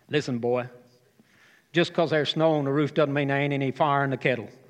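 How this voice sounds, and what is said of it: Broad Southern US accent. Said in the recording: “broad southern accent”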